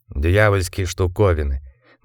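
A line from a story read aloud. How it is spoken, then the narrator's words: Gloomy reply. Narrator (Russian): мрачно ответил Андерс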